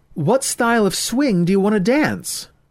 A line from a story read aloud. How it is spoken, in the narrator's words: She shouted over the noise